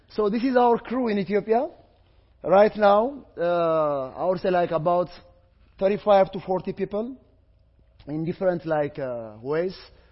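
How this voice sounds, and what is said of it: Non-native English accent. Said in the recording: “English is not native term ... I apologize for my accent”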